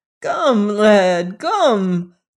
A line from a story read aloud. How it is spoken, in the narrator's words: cried he querulously